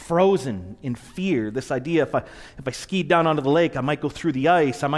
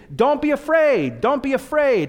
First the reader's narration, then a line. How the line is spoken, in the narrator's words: And them screaming